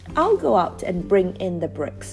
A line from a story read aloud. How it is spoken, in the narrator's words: she cried suddenly